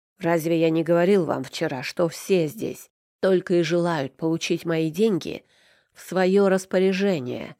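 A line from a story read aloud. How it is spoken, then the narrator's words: Gruff growl. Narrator (Russian): рыкнул Аверин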